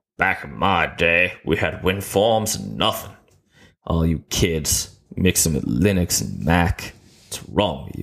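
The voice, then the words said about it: Imitates a sitcom character's accent. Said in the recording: “my Archie Bunker impression, which I think ended up being more Red Fox, because yay accents”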